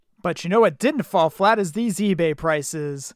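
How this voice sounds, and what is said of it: Announcer-style commercial voice. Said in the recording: “you sounded like a commercial almost”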